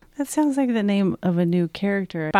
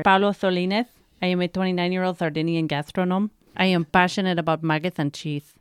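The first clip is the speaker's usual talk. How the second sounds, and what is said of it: Put-on Italian or Spanish accent. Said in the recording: “Is that your best Italian accent? ... He's Spanish. Can you tell?”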